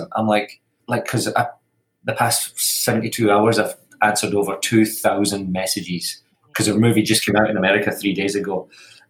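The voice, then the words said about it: Scottish accent. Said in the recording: “it doesn't understand the Scottish accent.”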